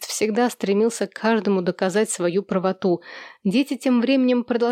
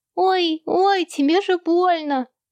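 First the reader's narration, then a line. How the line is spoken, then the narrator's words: Squeaky voice. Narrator (Russian): пропищал Томми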